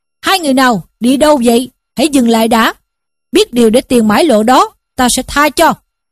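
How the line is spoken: Menacing shout. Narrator (Vietnamese): hai tay hảo hán quát lên

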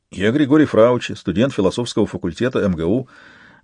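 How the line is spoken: Rapid trembling young man. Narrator (Russian): затараторил юноша дрожащими губами

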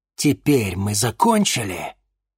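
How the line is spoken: Furious hiss. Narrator (Russian): яростно прошипел чернокнижец

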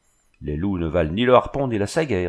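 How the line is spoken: Sneering son. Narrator (French): ricana le fils de Lurus

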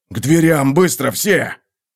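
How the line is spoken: Hiss. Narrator (Russian): Зашипел

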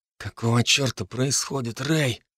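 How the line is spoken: Tense whisper. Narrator (Russian): напряженным шепотом спросил у меня Дарт

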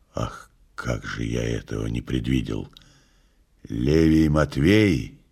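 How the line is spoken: Hoarse. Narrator (Russian): Пилат сказал хрипло

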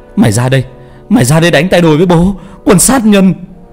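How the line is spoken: Hissing. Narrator (Vietnamese): Bảo rít lên

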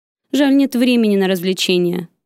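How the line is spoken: Deep bass voice. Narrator (Russian): Пробасил он уже привычным тоном

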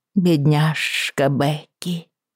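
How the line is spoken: Sad drawl. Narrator (Russian): грустно протянула миссис Берцли

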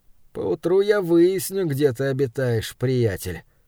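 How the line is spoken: Muttered. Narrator (Russian): пробормотал студент

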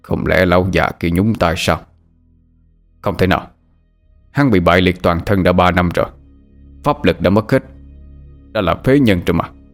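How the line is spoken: Muttering to oneself. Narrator (Vietnamese): lầm bầm như tự nói với chính mình

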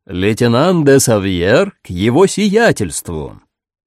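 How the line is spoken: Loud report. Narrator (Russian): Громко докладывает

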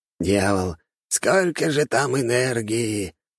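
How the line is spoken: Envious old man sighing. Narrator (Russian): Старик в черном завистливо вздохнул

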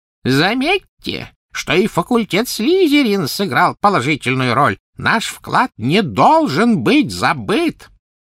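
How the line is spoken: Thin high-pitched call. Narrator (Russian): Финиас Найджелус взывал своим тонким высоким голосом

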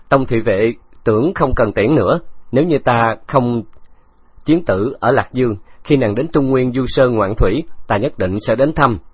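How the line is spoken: Loud laughter. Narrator (Vietnamese): Khấu Trọng cười lớn

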